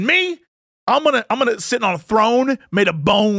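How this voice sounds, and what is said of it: Usual voice. Nothing is said of it.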